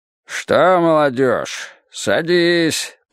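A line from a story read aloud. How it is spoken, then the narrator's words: Deep-voiced, enthusiastic man. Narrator (Russian): пробасил краснолицый Степаныч, чей энтузиазм был вчера удобрен червонцем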